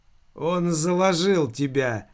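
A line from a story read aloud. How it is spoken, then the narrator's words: Grim, dead man. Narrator (Russian): мрачно проговорил покойник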